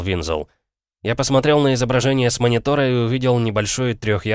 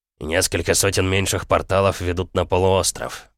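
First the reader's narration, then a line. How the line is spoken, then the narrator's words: Muttered under breath. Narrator (Russian): пробормотал Винзол себе под нос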